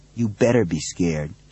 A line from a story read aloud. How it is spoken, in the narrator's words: he murmured